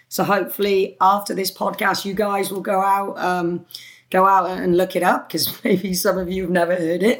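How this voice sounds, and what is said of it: British accent. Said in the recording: “I have this British twang”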